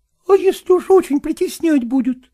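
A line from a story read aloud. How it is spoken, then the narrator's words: Timid question. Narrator (Russian): робко спросила Настя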